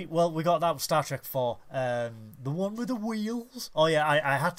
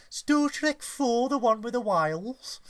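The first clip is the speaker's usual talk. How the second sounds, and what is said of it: Put-on Brummie accent. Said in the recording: “I was going to do a Star Trek Brummy accent.”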